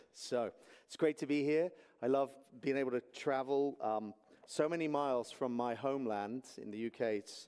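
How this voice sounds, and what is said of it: English accent. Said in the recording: “can you understand me with my English accent?”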